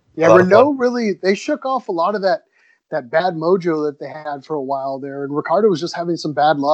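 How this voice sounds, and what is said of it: Usual voice. Nothing is said of it.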